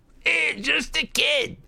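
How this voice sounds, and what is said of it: Mocking falsetto imitation. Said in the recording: “mimicked in a falsetto voice”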